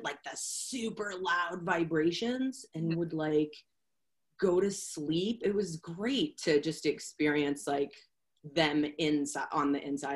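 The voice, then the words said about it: Boston accent. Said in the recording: “I love your accent. ... I'm from Boston. ... It pops.”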